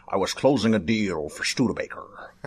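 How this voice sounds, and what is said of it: Anthony Hopkins-as-Nixon impression. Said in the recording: “that was not a good Richard Nixon impression, but that was a great Anthony Hopkins doing Richard Nixon impression.”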